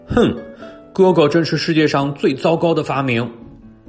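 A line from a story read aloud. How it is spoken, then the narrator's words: Villainous roar. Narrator (Chinese): 邪恶的海盗三胞胎兄弟大吼道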